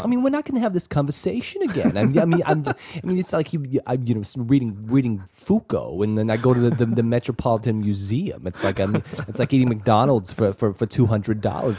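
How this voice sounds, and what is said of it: Imitates another person's voice. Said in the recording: “My terrible Woody Allen impression”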